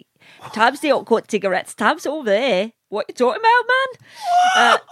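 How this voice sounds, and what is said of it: Put-on Newcastle Geordie accent. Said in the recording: “I've got a perfect Newcastle accent ... I can talk in Newcastle, no problem ... I talk in a Newcastle accent”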